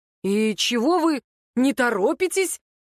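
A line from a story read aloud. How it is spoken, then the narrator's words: Exclaimed. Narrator (Russian): воскликнул Руслан Юнирович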